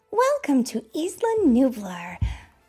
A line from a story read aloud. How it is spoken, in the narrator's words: Claire said warmly